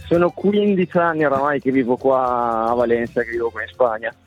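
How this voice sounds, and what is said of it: Italian with slight Spanish accent. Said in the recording (Italian): “che accento spagnolo ... hai acquisito un attimo di accento ... E si sente proprio.”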